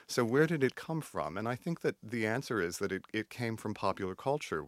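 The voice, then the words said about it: Artificial non-southern American accent. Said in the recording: “so that I would not get a southern accent ... what I have created is really artificial, as one can tell, a very artificial kind of delivery. And I do not have a southern accent. My accent is not like my parents”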